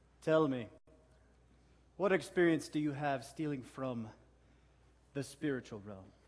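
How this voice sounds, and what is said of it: Villainous accent. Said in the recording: “do you hear his accent? ... So villainous.”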